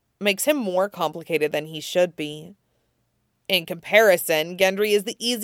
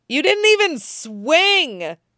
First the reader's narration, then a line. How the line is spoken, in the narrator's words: she shouts at him